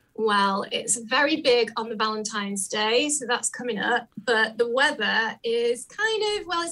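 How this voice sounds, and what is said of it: Welsh accent. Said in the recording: “I sense an accent ... I am from South Wales in the UK”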